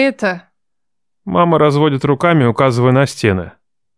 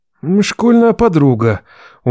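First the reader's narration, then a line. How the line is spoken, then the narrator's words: Dejected trailing finish. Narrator (Russian): уныло договаривает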